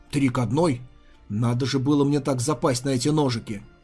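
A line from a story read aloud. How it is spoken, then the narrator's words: Grumbling, feigned displeasure. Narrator (Russian): Ли напустив на себя недовольный вид, буркнул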